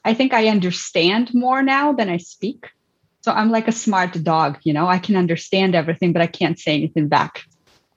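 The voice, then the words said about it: Mixed Canadian, English and Ukrainian accent. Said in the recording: “I love your accent, by the way. It's so mixed. ... there's some Canadians there, and then all of a sudden it becomes English, like England English, and then a little bit of your Ukrainian background.”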